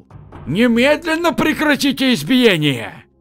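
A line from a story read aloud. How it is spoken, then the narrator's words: Loud elderly shout. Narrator (Russian): Пожилой худощавый гость заведения встал и громко крикнул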